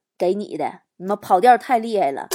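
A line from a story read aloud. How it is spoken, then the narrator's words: Calm, faint smile. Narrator (Chinese): 帅哥淡淡一笑，说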